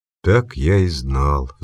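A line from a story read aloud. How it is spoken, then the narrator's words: Sigh. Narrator (Russian): вздохнул Майер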